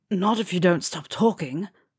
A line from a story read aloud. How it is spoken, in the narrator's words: growled